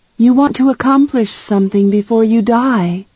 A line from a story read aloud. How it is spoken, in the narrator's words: Bean sighed